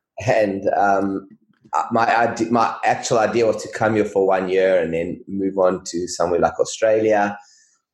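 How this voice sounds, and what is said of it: South African accent. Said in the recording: “I came here actually about 16 years ago from South Africa, if you can't recognize the accent.”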